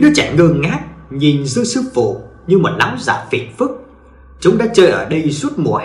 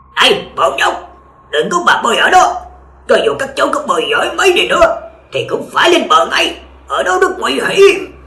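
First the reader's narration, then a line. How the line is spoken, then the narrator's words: Shouted loudly. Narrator (Vietnamese): Đại sư hét lớn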